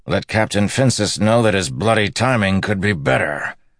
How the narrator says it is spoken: Itaralda growled

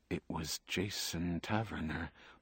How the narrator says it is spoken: Buckman said quietly, as if to himself

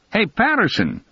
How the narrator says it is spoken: Hig yelled

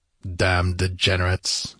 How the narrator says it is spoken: growled Conan

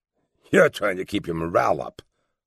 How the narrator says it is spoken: Morrison snorted

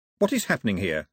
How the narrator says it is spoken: snapped Mao

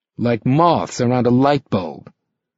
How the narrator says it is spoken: Rick said bitterly

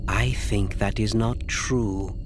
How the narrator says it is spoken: Asi said softly

